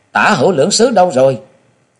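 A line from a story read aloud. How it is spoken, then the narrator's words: Shouting. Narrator (Vietnamese): Có người thì quát tháo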